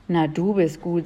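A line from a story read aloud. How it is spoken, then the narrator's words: Plain. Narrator (German): sagte Melissa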